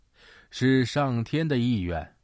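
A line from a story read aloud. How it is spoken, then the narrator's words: Laughing. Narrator (Chinese): 文殊广法天尊笑道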